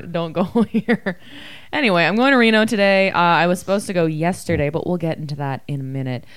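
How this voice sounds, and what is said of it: Deep, low morning voice. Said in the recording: “We can also tell it's the morning because my voice is like an octave lower.”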